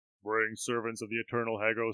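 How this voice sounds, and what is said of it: Really deep character voice. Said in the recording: “In a really deep voice,”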